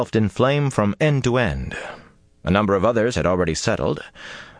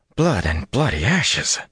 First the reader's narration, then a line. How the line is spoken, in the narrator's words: muttered in shock